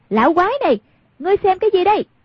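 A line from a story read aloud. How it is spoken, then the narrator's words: Loud shout. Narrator (Vietnamese): Hoàng Dương lớn tiếng kêu lên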